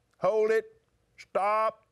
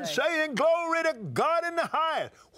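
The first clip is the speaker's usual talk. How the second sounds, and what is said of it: Shouting. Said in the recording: “Why are you shouting”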